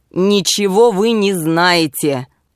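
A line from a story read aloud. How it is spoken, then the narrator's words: Rude objection. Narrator (Russian): возразил он грубо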